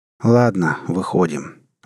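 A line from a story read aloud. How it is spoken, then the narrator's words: Weary captain. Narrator (Russian): устало произнес капитан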